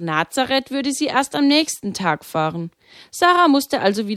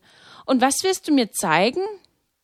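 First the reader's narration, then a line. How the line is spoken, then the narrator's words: Sighing. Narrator (German): meinte sie mit einem Seufzen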